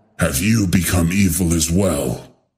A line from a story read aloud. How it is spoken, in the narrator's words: Kente growled